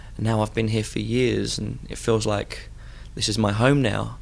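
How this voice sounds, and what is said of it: Foreign-sounding English accent. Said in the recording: “I've got this funny accent”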